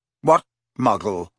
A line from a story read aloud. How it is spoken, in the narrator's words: said Riddle sharply